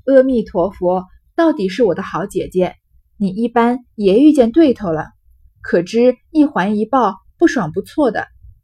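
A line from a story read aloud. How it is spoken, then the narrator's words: Laughing. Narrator (Chinese): 黛玉 笑道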